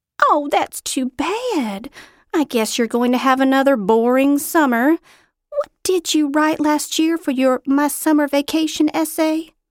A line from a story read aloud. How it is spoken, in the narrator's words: She laughed